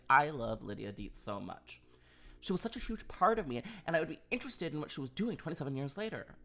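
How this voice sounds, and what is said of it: Impression of Winona Ryder. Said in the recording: “was that a good impression? I feel like it was spot on. Yes, Winona”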